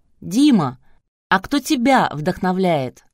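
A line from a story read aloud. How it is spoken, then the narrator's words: Shouted from crowd. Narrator (Russian): из ряда молодежных вестей выкрикнули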